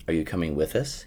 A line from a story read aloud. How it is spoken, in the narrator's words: he asked